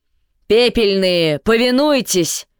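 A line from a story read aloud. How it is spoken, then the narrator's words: Shouting. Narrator (Russian): крикнул Эйтель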